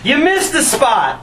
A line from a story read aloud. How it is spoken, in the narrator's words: yelled